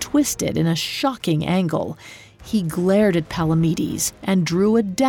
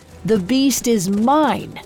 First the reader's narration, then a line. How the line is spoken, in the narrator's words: he shouted over their pounding hooffalls